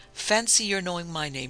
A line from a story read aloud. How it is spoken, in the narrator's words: she exclaimed